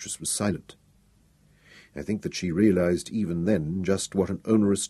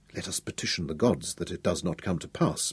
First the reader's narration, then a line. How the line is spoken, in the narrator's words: murmured